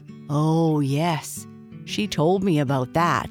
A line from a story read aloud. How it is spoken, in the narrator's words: said Flop Ear